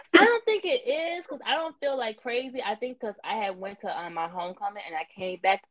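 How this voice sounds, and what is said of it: Stuffy, congested voice. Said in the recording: “I got a little cold... y'all can probably hear it in my voice because I sound a little stuffy”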